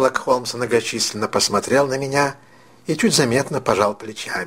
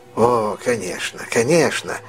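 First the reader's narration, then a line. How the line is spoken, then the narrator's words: Relieved sigh. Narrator (Russian): ответил мистер Бейкер, облегченно вздохнув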